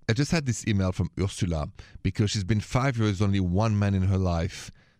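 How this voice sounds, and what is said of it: French accent. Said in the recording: “my accent is French”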